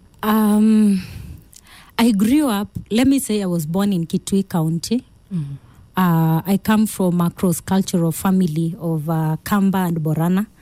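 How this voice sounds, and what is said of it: Kenyan Kamba accent. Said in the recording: “you can hear the Kamba accent in me”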